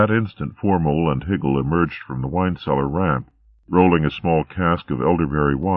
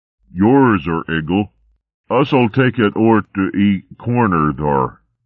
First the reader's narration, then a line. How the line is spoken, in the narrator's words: Formol grunted